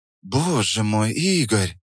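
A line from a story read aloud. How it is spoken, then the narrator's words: Breathless exhale. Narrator (Russian): выдохнула Наталья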